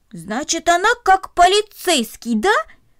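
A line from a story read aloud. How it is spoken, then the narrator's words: Pleased excited exclamation. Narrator (Russian): радостно воскликнул он, довольный своим открытием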